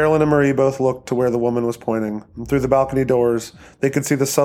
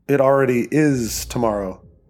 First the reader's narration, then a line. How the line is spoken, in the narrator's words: Teresa said